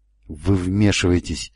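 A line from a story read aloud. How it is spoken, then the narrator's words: Low-voiced rebuke. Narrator (Russian): вполголоса одернул его Нолан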